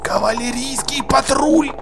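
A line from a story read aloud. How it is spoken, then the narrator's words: Whisper. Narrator (Russian): шепнул Джекрам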